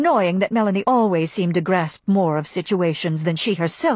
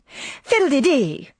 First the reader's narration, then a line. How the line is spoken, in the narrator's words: cried Scarlett, beginning to be irritated